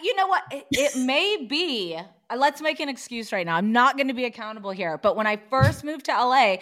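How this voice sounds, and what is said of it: Usual voice. Nothing is said of it.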